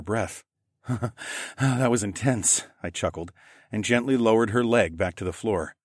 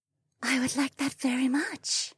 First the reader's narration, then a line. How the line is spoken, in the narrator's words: Amaya whispered